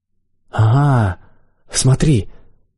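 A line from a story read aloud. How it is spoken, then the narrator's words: Exclamation. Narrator (Russian): воскликнул я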